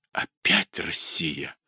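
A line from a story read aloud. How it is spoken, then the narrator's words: Whisper. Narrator (Russian): прошептал Литта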